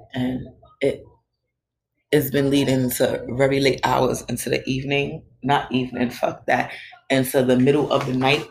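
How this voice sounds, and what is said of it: Tired, exhausted-sounding voice. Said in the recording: “You guys can probably hear from my voice that I am not. I am extremely exhausted.”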